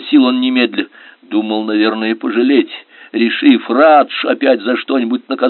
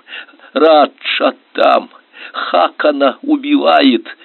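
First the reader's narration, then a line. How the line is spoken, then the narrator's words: Hoarse strained speech. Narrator (Russian): не отнимая от горла руки, сипло выговорил Карел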